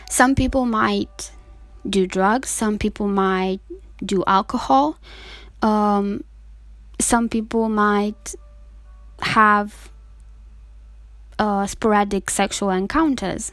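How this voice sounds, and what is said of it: Emotional, strained voice. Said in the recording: “you can tell by my voice, I'm getting emotional ... I'm having a hard time sharing this information”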